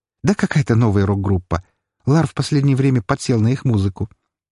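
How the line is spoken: Cheerful snort. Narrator (Russian): весело хмыкнула брюнетка

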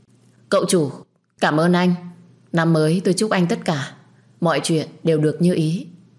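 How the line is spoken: Loud. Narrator (Vietnamese): Tôi lớn tiếng

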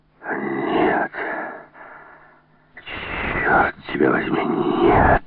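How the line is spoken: Hoarse, furious shout. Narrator (Russian): хрипло и яростно крикнул Келс

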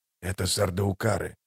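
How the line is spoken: Whisper. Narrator (Russian): шепнул Хават

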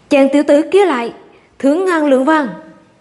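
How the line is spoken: Loud speech. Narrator (Vietnamese): liền lớn tiếng nói

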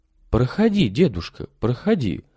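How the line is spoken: Gentle, affectionate. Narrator (Russian): ласково обратилась к нему Марфа Ивановна

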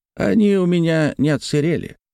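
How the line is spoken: Old man laughing. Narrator (Russian): засмеялся старик

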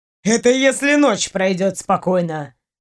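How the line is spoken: Snorted. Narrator (Russian): хмыкнул Ваня

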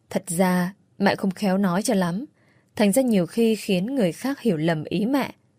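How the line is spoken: Softly explaining. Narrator (Vietnamese): khẽ giải thích

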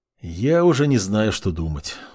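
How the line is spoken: Weary. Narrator (Russian): устало покачал головой сослуживец

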